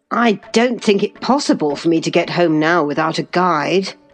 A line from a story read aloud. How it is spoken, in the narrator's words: could not help exclaiming